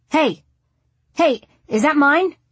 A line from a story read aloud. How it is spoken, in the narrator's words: someone shout